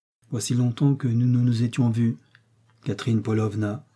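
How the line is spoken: Calm and cold. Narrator (French): dit-il d'un ton de calme froideur

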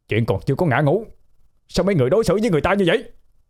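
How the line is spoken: Agitated outcry. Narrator (Vietnamese): Ba Trọng không kìm được mà chạy tới đứng trước mặt mọi người la lên

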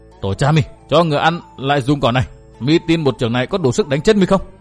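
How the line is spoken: Sullen scolding. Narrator (Vietnamese): Hắn hậm hực mắng

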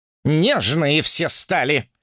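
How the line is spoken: Snorted. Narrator (Russian): фыркнул Сунь-Укун

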